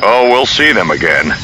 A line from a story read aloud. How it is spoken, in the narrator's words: Han growled